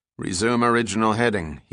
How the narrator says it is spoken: he said

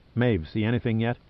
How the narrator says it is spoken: asked Pitt

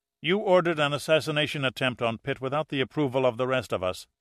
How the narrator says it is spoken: said Carl sharply

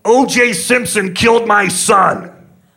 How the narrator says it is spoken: The guy gets mad and screams

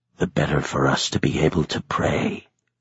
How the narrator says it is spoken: he whispered

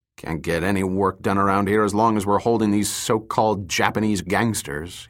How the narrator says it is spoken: grumbled

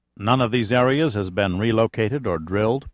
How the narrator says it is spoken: Pitt asked

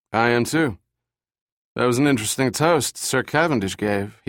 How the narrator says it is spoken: said, slurring his words

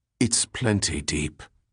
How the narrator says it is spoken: Donald Darby retorted quietly

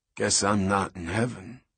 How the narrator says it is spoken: Zavala croaked

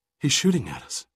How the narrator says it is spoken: she gasped

